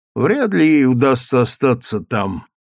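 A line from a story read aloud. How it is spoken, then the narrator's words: Gloomy reply. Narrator (Russian): уныло ответил Равенель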